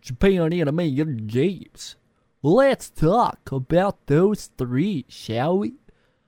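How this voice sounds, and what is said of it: Put-on accent. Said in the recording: “Don't know why I put that accent on. ... I don't think I want to continue doing this accent either.”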